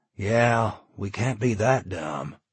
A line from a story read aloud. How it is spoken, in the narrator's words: Charlie interjected, his voice bitter with irony